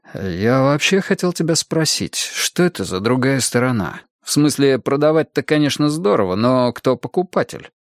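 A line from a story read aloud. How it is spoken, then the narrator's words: Mock groan. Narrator (Russian): Роупер притворно застонал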